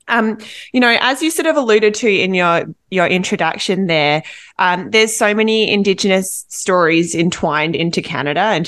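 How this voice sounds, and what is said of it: Non-Canadian accent. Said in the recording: “from my accent, you can tell I'm not from Canada”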